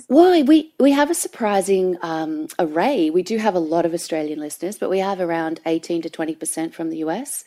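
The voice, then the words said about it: Australian accent. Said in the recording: “I love your accent. Of course, do you have mostly Australian listeners?”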